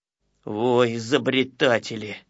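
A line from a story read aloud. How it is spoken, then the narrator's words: Grumbling. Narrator (Russian): ворчал, конечно, Ворчун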